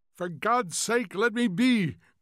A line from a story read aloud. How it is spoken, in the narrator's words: cried Montag passionately